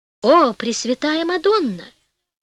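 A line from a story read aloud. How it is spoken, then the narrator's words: Exclaiming. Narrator (Russian): воскликнул король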